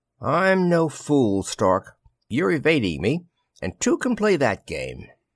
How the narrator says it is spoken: she smiled very mockingly

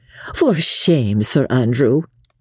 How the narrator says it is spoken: she said with a playful sigh

